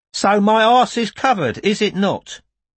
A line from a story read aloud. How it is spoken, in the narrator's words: exhaling, said cheerfully